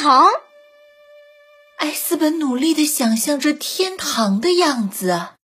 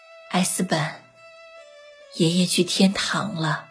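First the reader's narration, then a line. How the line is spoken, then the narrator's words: Soft, gentle. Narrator (Chinese): 妈妈轻声地说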